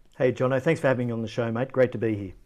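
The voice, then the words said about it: Australian accent. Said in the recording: “you're an Aussie ... if you couldn't tell from the accent ... the Aussie accent”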